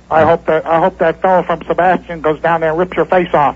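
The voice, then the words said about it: Fake disguised mumbling voice. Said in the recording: “What a bad phony voice ... he sounded like he had a mouthful of marbles”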